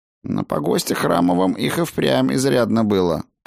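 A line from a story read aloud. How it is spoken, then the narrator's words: Grumbling. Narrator (Russian): проворчал Фредегар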